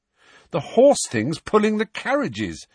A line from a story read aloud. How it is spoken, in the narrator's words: said Harry impatiently